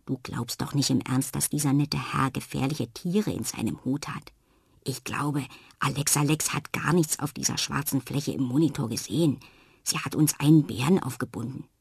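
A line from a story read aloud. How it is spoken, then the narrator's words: Murmuring. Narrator (German): raunt Jana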